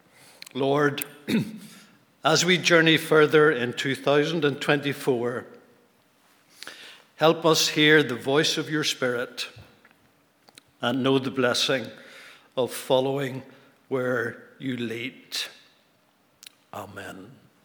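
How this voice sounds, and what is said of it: Worn-out, nearly lost voice. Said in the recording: “My voice is gone”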